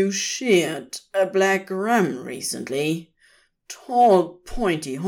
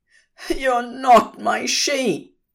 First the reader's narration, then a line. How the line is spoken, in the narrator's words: cried, a wet feeling travelling confusingly up his cheek instead of down